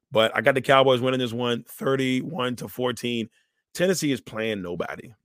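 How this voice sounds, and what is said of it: Hoarse, strained voice. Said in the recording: “I've been losing my voice out here running around”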